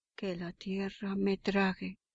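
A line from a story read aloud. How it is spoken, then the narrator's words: Frightened exclamation. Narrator (Spanish): Sintió miedo y exclamó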